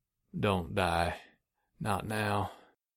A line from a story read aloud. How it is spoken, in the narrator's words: mumbling